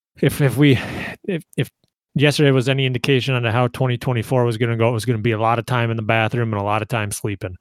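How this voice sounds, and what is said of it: Rough, rocky sick voice. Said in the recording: “if you can't tell, my voice is a little rocky”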